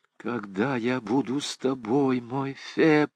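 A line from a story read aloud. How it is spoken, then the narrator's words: Tender whisper, girl. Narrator (Russian): с нежностью прошептала девушка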